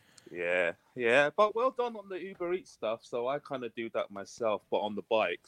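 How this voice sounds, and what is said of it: British accent. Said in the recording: “You can probably tell from my accent I'm coming from the UK.”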